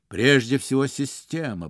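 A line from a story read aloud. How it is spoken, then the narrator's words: Mumbling. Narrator (Russian): бормотал он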